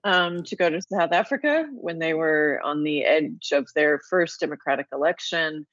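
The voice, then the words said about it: Remnants of American Midwest accent. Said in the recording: “I left the Midwest U.S. You can hear there's still remnants of an American accent here.”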